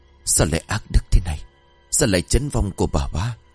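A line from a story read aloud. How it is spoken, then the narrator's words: Shocked muttering. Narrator (Vietnamese): Ông thẳng thốt rồi lẩm bẩm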